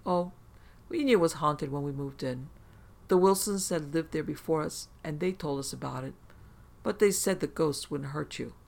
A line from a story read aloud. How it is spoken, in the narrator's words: she calmly replied